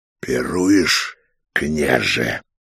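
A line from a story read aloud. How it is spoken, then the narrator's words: Hoarse question. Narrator (Russian): хрипло спросил венец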